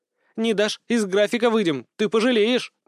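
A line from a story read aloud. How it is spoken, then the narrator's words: Angry child squeaking. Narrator (Russian): гневно пищала малышка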